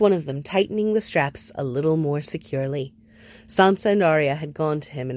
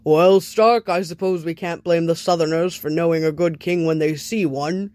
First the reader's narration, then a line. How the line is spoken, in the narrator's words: Lord Umber boomed a laugh and told him